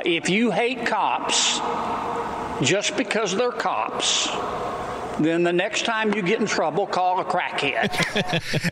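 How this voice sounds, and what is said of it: Louisiana Southern accent. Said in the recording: “I love that Louisiana Southern accent.”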